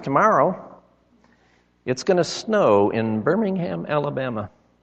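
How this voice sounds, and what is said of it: Squeaky quoted voice. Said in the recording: “with a squeaky voice”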